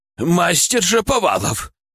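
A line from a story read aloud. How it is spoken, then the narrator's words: Shouting, spluttering. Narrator (Russian): он почти орал, брызгая слюной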